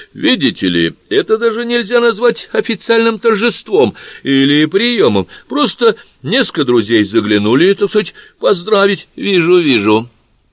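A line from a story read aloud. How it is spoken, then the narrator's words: Agreeing with awful laugh. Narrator (Russian): Согласилась Малевола, рассмеявшись своим ужасным смешком, от которого никому еще никогда не становилось весело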